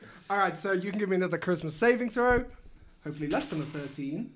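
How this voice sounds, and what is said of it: Usual voice. Nothing is said of it.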